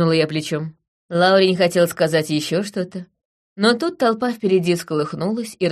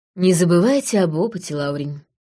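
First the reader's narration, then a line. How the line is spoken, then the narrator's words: Sighing. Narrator (Russian): вздохнула я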